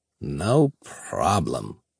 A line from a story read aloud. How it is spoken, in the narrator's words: purred, her tongue flicking hungrily across her lips